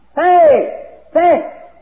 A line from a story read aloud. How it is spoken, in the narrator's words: He screamed out